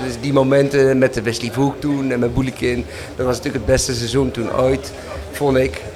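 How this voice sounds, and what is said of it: Hague Dutch accent. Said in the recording (Dutch): “je hoort toch mijn Haagse accent”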